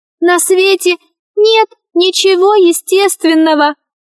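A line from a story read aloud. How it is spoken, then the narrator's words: Shrill little voice. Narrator (Russian): ответил пронзительным голоском мяч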